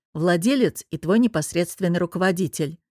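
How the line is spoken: Added with a snort. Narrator (Russian): Артем Станиславович, хмыкнув, добавил

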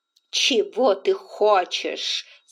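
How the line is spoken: Icy, suppressed fury. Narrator (Russian): сказала Индия ледяным голосом, хотя вся дрожала внутри от ярости

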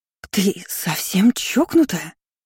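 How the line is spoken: Hissing. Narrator (Russian): Зашипела так называемая старшая госпожа

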